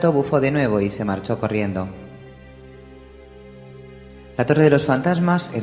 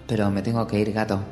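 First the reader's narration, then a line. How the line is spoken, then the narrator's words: Low voice. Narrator (Spanish): dijo en voz baja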